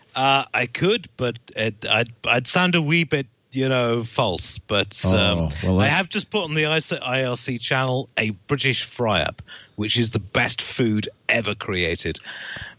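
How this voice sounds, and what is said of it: Posh upper-class British accent. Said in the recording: “He's got some posh upper class accent, replaced his good Scottish brogue.”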